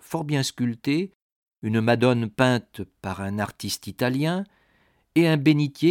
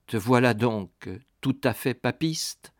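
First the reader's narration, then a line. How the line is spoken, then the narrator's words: Plain. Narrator (French): dit-il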